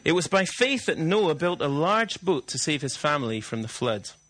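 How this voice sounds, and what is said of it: Scottish accent. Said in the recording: “Are you coping with the Scottish accent? Or would you like it a bit thicker this morning?”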